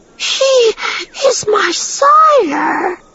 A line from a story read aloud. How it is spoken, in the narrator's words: Child of Winds chirped